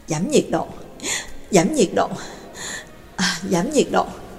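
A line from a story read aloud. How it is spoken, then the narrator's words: Excited muttering. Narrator (Vietnamese): kích động, miệng lẩm bẩm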